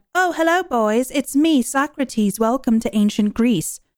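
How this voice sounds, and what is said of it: Put-on British accent. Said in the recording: “we'll just make them have a British accent ... oh, just give them a British accent”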